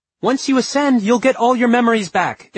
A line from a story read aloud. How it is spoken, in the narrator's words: Isabel shouted at him